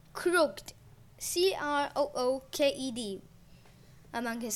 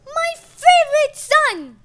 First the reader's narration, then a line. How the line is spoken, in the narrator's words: Gaia exclaimed